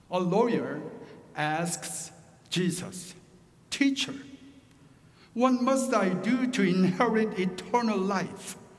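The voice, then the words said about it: Thick Korean accent. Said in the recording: “my rich and thick Korean accent”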